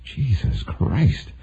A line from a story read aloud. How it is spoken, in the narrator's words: who would mutter